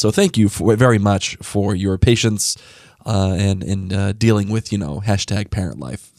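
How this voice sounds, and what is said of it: Sick, sniffly, rough voice. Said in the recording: “I'm getting sick, so my voice sounds like crap... my sniffles and my terrible sounding voice”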